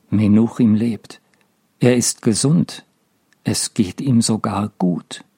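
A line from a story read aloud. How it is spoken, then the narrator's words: Calm. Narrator (German): sieht Mendel ruhig an und sagt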